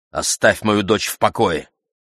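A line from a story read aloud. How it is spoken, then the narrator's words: Said sharply. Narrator (Russian): сказала резко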